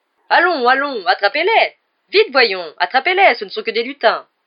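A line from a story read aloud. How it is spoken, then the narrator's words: Yelling. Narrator (French): hurla Lockhart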